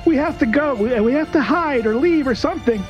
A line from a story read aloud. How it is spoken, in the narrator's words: Crow just kind of yells out